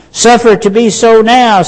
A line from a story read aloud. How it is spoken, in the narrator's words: said Jesus